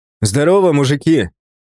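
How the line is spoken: Casual street-style shout. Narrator (Russian): крикнул, пытаясь разрядить обстановку своей привычной уличной манерой

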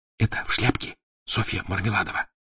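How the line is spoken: Whisper in the ear. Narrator (Russian): зашептал на ухо Заметов

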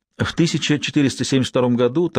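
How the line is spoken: Hurried explanation. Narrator (Russian): торопливо объяснил Лэнгдон Сиене

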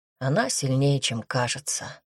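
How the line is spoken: Man's sigh. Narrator (Russian): вздохнул мужчина

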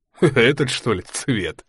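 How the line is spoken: Chuckle, detective. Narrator (Russian): хохотнул сыщик

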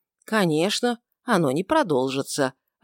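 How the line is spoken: Soft and confident. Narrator (Russian): ответил Анна мягко и уверенно

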